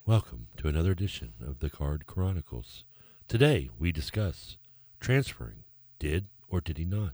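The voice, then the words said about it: Mock podcast-host voice. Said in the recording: “podcast voice”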